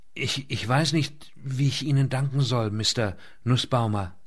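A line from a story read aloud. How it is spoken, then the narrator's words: Startled, soft. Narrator (German): Erschreckt antwortete sie leise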